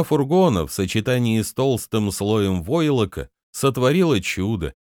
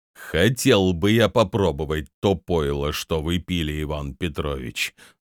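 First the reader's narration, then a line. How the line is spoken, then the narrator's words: Gloomy yet respectful. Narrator (Russian): мрачно, но с уважением произнес он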